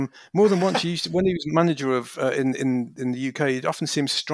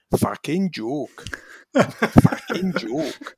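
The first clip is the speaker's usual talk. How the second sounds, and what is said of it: Welsh-accented impression of another person. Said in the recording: “one of the very few managers I can do a two-word impression of ... my Chris Coleman impression. It's just a bloke with a Welsh accent.”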